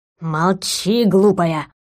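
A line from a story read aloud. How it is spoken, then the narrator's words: Hiss. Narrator (Russian): зашипел ретро-глюк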